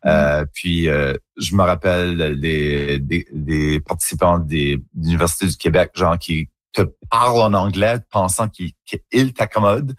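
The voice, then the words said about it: Acadian French accent, rounded. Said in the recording (French): “on est un peu self-conscious de notre accent ... c'est juste mon accent en Acadie. C'est comme ça qu'on parle ... un accent un petit peu plus coloré, un petit peu plus arrondi”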